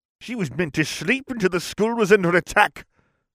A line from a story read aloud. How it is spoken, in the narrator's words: Slytherin snapped